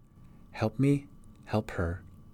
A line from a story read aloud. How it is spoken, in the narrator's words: whispered